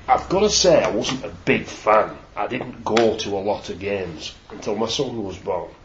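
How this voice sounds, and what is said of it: Wigan English accent. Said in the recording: “obviously I'm a Wiganer. You can tell that by my accent”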